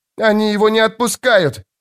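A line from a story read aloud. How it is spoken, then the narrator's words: Shouting abyss. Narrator (Russian): закричала бездна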